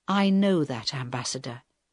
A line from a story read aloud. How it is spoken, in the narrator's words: Helen answered quietly